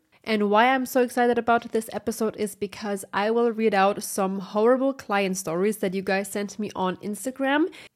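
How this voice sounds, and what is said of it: Congested, slightly sick-sounding voice. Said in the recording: “apologize for my voice. I might sound a little bit sick ... I'm struggling with my allergy at the moment”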